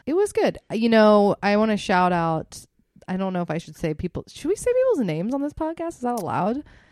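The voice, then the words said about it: Sick, slightly congested voice. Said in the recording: “I am a little under the weather, if you can hear in my voice.”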